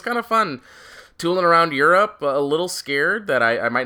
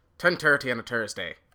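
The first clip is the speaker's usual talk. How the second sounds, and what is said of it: Put-on Irish accent. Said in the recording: “How's my accent? ... Yeah, not too bad. ... I started to slip into it a little bit ... a bad Irish accent”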